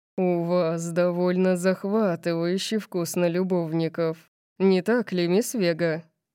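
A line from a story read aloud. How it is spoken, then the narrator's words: Seductive purr. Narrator (Russian): Он соблазнительно замурлыкал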